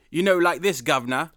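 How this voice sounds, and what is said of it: Put-on Cockney accent. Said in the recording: “not the the uneducated Cockney accent ... You know, the Cockney accent ... so the uneducated, like that.”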